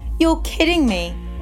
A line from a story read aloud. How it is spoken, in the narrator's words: Davina Patel, the restaurant manager, laughed with a grin